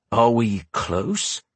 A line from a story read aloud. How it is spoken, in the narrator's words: he asked through gritted teeth